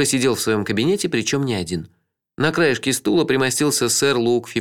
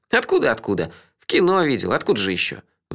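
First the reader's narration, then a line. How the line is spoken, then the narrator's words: Sighing. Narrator (Russian): вздохнул он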